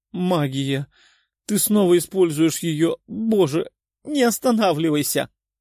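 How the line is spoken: Very loud screaming and moaning. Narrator (Russian): Ведьма кричала и стонала так громко, что было слышно даже за пределами резиденции

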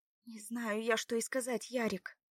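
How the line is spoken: Dejected sigh. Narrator (Russian): вздохнула Лада удрученно

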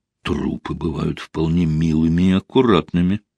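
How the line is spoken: Muttered. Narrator (Russian): пробормотал он

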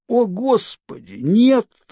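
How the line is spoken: Groaning in pain. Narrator (Russian): застонал я, пытаясь стряхнуть боль

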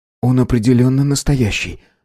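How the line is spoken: Trembling voice. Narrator (Russian): дрожащим голосом резюмировал он

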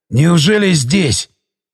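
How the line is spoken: Breathless. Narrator (Russian): выдохнул

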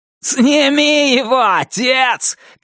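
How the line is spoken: Shouting. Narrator (Russian): крикнул Туз

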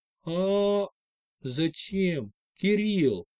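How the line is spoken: Barely audible whisper. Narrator (Russian): едва слышно прошептала Лена

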